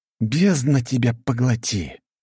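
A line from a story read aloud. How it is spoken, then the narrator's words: Exhaled. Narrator (Russian): выдохнул я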